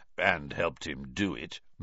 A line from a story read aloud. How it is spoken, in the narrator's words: murmured Moody